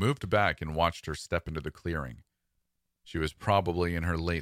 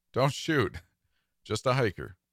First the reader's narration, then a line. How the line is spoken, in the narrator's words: She laughed and said